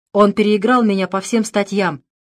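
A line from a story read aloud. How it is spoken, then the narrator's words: Irritated. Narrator (Russian): раздраженно сказал Пламер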